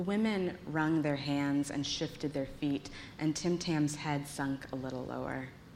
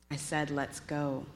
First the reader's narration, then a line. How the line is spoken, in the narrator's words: he repeated, shame coloring his voice gray